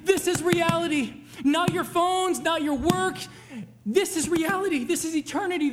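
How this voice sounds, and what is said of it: Yelling with a strained, fading voice. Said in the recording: “I've been yelling at you for a while... I'm losing my voice and I'm yelling”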